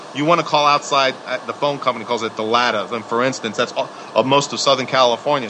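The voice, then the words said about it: New York accent. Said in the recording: “I'm saying it with a New York accent”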